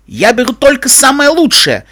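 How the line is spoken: Offended yelling. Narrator (Russian): обиженно завопил хозяин

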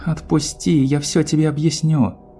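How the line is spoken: Pleading. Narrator (Russian): взмолилась Твайлайт

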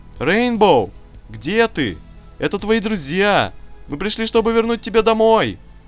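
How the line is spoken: Shouting. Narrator (Russian): кричала Эпплджек

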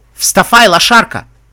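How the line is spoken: Barked in broken accent. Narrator (Russian): рявкнул охранник на ломаном эквестрийском

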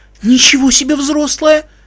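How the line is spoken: Upset exclamation. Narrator (Russian): воскликнула расстроенная мать

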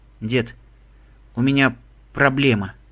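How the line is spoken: Mumbling. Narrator (Russian): промямлил он

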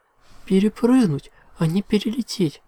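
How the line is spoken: Moaning princess. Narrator (Russian): Простонала принцесса

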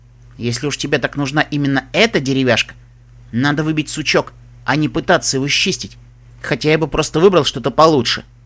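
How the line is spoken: Speaking, cut off. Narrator (Russian): проговорил было он

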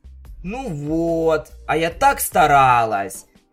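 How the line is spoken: Grumbling. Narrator (Russian): заворчала Пинки

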